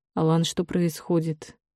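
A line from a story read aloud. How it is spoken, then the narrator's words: Softer question. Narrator (Russian): Уже более мягко спросил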